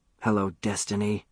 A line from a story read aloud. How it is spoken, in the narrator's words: whispered